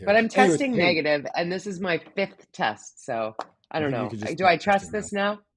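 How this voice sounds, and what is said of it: Congested, stuffy-nosed voice. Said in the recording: “I kind of sound like I got a snotty nose ... I sound like crap ... I sound like a Kardashian.”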